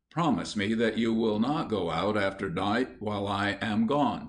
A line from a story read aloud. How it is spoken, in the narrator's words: said Mr